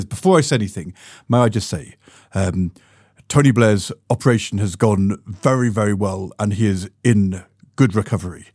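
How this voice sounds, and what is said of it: Gordon Brown impression. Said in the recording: “pretty good Gordon Brown impression ... the Ed Balls Gordon Brown impression”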